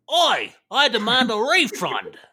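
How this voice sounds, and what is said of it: Put-on Cockney British accent. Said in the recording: “That's my British peasant. ... The Cockney accent.”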